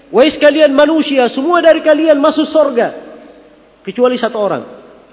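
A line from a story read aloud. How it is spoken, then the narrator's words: Shouted from the sky. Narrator (Indonesian): andai kata ada yang meneriakkan dari langit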